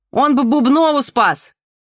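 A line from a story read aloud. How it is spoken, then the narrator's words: Shout from the audience. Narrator (Russian): крикнул кто-то из зала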